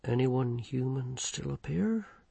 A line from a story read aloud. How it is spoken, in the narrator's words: he whispered